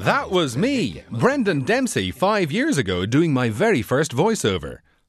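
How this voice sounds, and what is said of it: Patronizing mid-Atlantic voiceover accent. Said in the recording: “in a slightly patronizing mid-Atlantic accent like this one”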